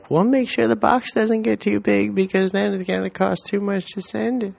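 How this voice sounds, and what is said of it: Imitates another person's voice. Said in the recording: “That's how you sound. ... That was my best you impression.”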